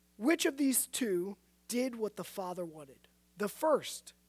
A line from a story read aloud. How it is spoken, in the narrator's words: they answered